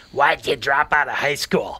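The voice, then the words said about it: Gravelly smoker's voice. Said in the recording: “it's real gravelly ... it sounded like he'd been smoking 9 packs a day for a long time”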